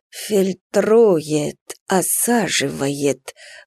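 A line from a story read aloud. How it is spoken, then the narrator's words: Muttering. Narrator (Russian): бормотал доктор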